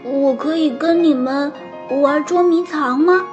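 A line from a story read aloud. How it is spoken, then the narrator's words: Plain. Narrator (Chinese): 亨利问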